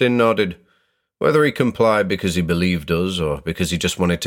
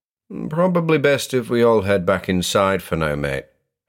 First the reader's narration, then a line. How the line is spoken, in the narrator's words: I said